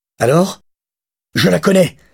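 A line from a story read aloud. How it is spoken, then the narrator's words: Exclaiming. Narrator (French): s'exclama-t-il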